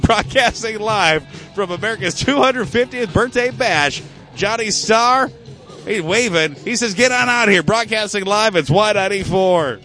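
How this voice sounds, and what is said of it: Breathless, out of breath. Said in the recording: “I'm out of breath.”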